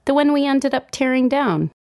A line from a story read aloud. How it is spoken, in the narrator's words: they say cheerfully